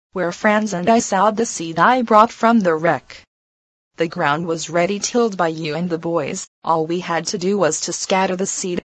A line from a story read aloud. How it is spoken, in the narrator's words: she replied, laughing